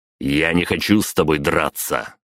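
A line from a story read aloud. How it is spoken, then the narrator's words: Growl. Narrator (Russian): рыкнул я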